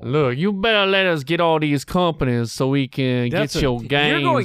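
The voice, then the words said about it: Put-on Cajun accent, not bad. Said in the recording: “Cajun. ... you've gone Cajun. ... I actually prefer ... Cajun accent. ... It's not bad.”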